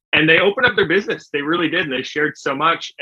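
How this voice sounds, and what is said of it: Canadian accent. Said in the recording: “can you not tell from my accent? ... I am from Canada.”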